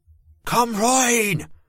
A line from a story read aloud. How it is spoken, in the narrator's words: the woman shouted over my scream